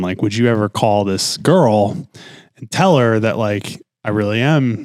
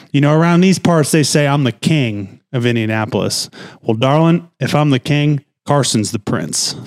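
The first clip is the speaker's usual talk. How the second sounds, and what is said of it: Imitates another person's accent. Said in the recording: “I'm not going to do the accent justice”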